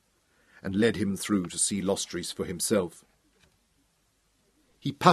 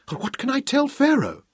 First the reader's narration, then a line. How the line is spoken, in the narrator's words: cried